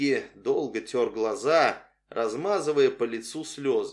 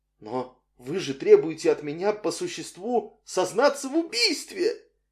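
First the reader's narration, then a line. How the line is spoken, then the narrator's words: Tearful, forced words. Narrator (Russian): выдавил Микки плачущим голосом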